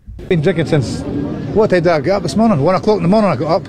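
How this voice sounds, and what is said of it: Scottish accent. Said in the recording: “they've got such a cool accent ... a whole bunch of Scots ... much better accents”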